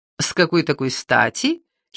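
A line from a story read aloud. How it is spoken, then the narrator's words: Giggling. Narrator (Russian): хихикнула она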